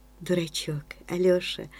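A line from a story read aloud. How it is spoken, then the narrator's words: Whispering. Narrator (Russian): шептала Валя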